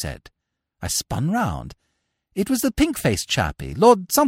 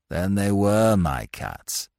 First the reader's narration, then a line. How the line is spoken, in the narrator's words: said sadly